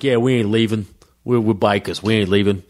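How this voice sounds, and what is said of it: Mafia-style tough guy voice. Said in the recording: “Your bikers sound like the, the mafia.”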